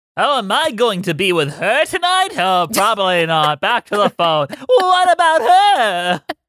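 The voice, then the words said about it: Nasal Pauly Shore impression. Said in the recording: “Is that your Pauly Shore impression? ... That's how he talks. ... That was Pauly Shore. ... I had to throw a little nasal in there.”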